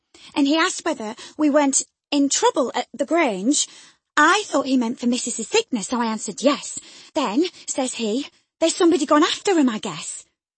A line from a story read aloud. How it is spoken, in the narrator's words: she stammered